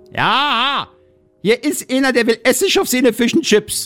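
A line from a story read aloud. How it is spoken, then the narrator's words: Saleswoman calling out. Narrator (German): rief die Verkäuferin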